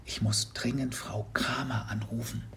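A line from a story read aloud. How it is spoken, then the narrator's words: Whispered back. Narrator (German): Mats wiederum flüsterte zurück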